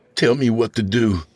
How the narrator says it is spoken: he begged

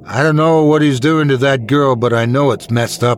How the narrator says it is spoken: I shouted

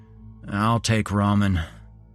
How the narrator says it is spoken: I groaned

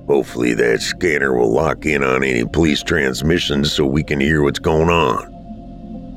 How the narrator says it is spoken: Dad muttered

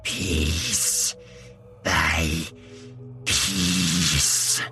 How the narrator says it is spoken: hissed in a choked voice

